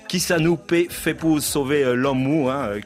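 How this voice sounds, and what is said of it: Put-on Creole accent. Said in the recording (French): “Super accent créole.”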